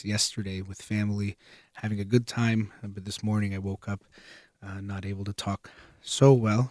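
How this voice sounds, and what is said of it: Strained, partly lost voice. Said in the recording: “my voice is a little bit off. I think I lost my voice ... if it's a little bit hard to hear, if I sound a little bit different”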